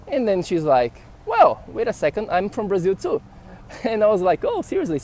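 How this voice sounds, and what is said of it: Brazilian Portuguese accent in English. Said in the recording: “where is your accent from? And I was like, I'm from Brazil”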